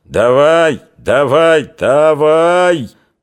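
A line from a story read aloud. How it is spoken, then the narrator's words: Hoarse happy shouting. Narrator (Russian): Зубарь кричал осипло и счастливо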